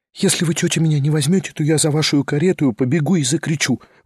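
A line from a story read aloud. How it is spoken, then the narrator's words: Quick desperate whisper in ear. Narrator (Russian): быстро и отчаянно прошептала она совсем на ухо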